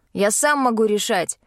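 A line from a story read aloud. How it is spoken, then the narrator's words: Sharp reply, young man. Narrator (Russian): резко ответил принц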